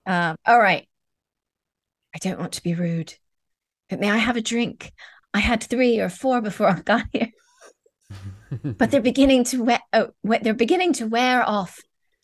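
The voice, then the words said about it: British accent that fades away. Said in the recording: “The British accent was there, then it just flew away.”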